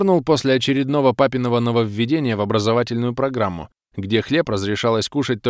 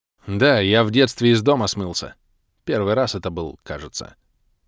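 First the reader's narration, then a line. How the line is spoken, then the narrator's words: Telling with a snort. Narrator (Russian): хмыкнув, поведал я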